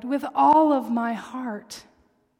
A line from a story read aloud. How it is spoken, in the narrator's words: cried